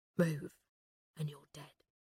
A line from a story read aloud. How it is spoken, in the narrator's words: hissed the man behind Sally